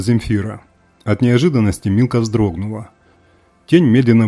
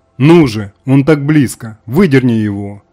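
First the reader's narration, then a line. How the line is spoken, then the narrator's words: Witch shouting again. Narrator (Russian): вновь крикнула ведьма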